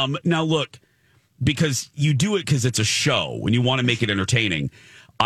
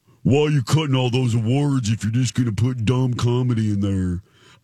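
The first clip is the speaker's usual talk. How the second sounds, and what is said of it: Imitates another person's voice. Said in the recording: “my Phil Jones imitation”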